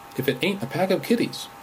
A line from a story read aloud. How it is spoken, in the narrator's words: he cried